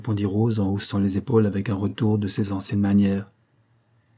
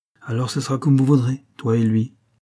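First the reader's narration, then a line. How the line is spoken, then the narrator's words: Resigned sigh. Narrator (French): soupira Florence d'un air résigné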